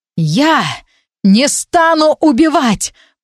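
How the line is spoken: Shouted. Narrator (Russian): прокричал я

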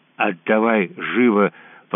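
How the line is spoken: Wolf cub hissing. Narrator (Russian): прошипел волчонок

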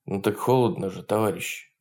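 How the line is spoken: Timid, stammering. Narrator (Russian): робко заикнулся кто-то

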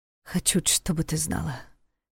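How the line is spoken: Quiet. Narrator (Russian): тихо сказал он

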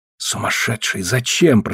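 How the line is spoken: Whisper. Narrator (Russian): прошептал я

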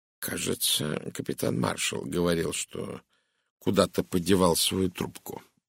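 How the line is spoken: Thoughtful mutter. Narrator (Russian): задумчиво пробормотал Пуаро

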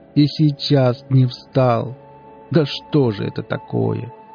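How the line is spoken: Sobbing. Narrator (Russian): Всхлипнул

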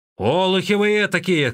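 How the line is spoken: Shouting. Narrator (Russian): кричал Янджи

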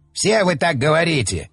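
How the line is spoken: Malicious smirk. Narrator (Russian): Злобно усмехнулся Стрил

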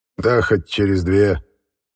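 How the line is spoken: Dismissive snort. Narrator (Russian): хмыкнул руководитель чрезвычайной следственной комиссии

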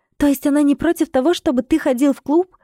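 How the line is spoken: Surprised breathless exhale. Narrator (Russian): удивленно выдохнула она

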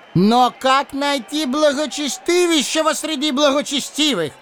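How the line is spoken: Yelling. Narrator (Russian): вопил в ответ Лис

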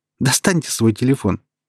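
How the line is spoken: Laughing request. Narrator (Russian): захохотала, а затем, все так же продолжая смеяться, попросила

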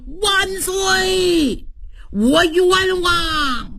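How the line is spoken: Loud shout. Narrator (Chinese): 有人大喊一声

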